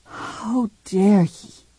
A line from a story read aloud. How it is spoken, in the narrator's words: she whispered to herself